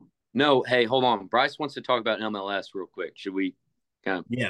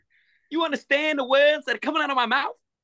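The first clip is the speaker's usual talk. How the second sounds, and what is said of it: Imitates another person's voice. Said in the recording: “You do a good what's that guy's name? ... Chris Tucker ... You do a little bit too good of an impression of that cat.”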